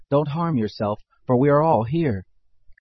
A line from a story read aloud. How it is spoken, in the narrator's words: Paul cried with a loud voice, saying